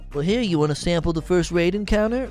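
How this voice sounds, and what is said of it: Weird put-on voice. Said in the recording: “That was a weird voice”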